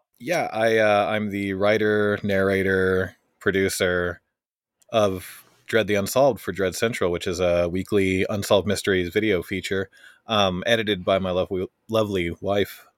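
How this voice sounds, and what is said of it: Polished radio-style speaking voice. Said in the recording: “You definitely have like perfect radio voice”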